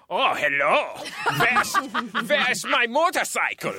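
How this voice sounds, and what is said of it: Exaggerated put-on German accent. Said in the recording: “super broad 1952 style German accent”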